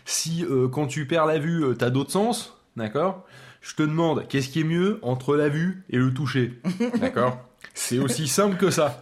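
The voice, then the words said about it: Talking like a judo teacher. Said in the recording (French): “pourquoi tu parles comme un prof de judo? ... faut que je me débarrasse de cet accent”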